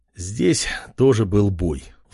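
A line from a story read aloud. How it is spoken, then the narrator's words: Sighing. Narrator (Russian): вздохнул король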